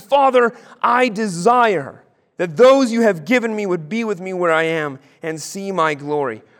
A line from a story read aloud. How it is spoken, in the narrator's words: Jesus cries out in the garden